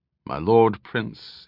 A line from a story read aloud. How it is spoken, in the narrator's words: his deep voice rumbled